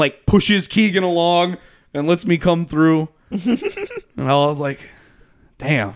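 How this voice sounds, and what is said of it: Usual voice. Nothing is said of it.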